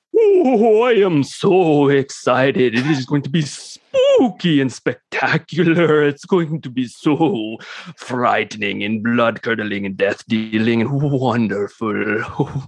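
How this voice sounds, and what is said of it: Put-on Transylvanian accent. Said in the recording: “That was my Transylvanian accent ... Northern good. Transylvanian, so people might not have recognized it ... it's a different dialect. It's Transylvanian.”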